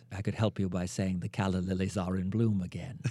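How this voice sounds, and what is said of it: Mid-Atlantic accent. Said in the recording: “This is a mid-Atlantic accent. ... It places me in the Hudson Valley or Connecticut.”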